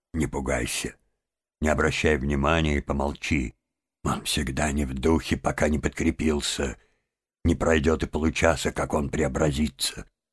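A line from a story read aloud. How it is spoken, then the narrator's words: Whispered. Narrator (Russian): мистер Крысси шепнул ему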